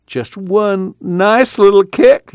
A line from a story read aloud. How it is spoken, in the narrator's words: Jewel pleaded